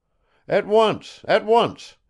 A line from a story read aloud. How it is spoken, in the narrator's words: his father exclaimed